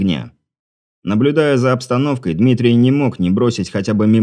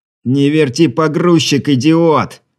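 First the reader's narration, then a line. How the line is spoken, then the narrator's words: Angry shout. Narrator (Russian): в сердцах выкрикнул снайпер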